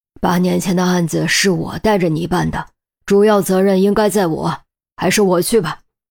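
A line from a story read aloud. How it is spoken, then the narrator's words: Sighing. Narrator (Chinese): 陆明叹了口气道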